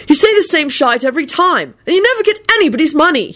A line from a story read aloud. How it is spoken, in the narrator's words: he added irritably